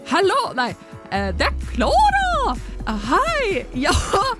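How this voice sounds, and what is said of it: Failed Trøndelag dialect, sounds Swedish. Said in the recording (Danish): “Du må ta det på trøndersk. ... Jeg klarer ikke trønderdialekt. ... hvor ble jeg svensk? ... jeg så dårlig på dialekter”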